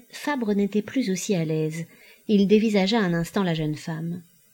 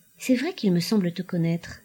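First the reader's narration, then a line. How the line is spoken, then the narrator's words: Murmured. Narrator (French): murmura-t-il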